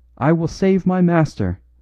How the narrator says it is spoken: cried, maniacally

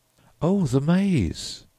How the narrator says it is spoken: exclaimed Humphreys

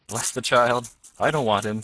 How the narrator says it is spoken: said cheerfully

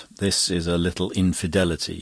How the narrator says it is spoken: he said

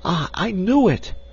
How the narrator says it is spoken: she exclaimed

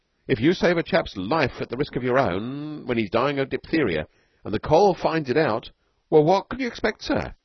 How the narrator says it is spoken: said Flint desperately

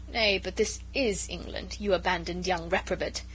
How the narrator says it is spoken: interposed Lord Antony with a laugh

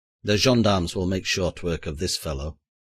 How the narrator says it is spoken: he growled to the chairman

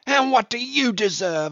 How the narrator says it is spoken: I shouted at him

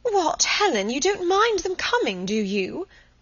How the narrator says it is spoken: Munt was so disconcerted that she exclaimed

